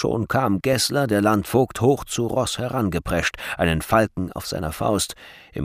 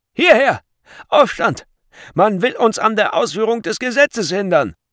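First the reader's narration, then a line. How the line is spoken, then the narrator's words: Guards shouting loudly. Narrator (German): Als die Wächter dies hörten, schrien sie laut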